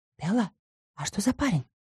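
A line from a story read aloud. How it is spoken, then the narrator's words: Very quiet question. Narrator (Russian): очень тихо спросил он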